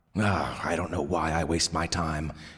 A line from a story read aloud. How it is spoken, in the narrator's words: muttered the old man